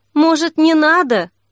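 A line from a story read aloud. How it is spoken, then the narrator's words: Pitiful question. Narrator (Russian): жалким голосом спросила Снежка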